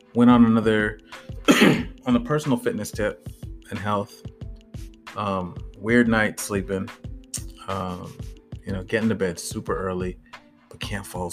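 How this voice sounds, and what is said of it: Hoarse, fading voice. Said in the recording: “losing my voice ... My voice has been going down the last few days”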